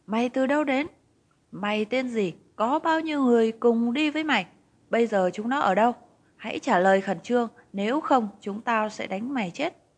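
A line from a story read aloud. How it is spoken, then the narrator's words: Panicked scream. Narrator (Vietnamese): Có người hét lên thất thanh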